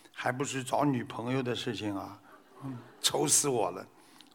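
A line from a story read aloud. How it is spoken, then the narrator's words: Son sighing. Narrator (Chinese): 儿子叹了口气说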